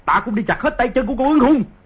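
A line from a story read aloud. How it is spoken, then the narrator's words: Grief-stricken furious roar. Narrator (Vietnamese): Di Tiểu Bảo thấy Dương Dật Chi tứ chi đều bị chặt như vậy, không kìm được bi phẫn cùng cực, gầm lên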